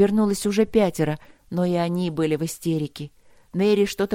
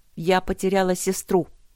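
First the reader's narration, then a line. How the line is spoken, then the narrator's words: Sharp. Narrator (Russian): сказала Огни резко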